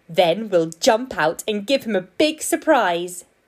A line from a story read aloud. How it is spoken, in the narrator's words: giggled the rabbits